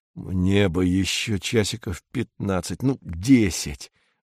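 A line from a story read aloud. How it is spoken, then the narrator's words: Mutter. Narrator (Russian): бормочет Корнеев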